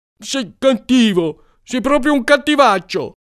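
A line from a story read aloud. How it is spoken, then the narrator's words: Shrieking, then crying. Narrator (Italian): ha strillato e ha cominciato a piangere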